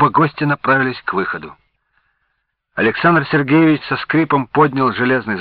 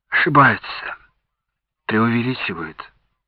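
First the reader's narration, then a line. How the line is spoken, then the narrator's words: Sigh. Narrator (Russian): вздохнул Александр Сергеевич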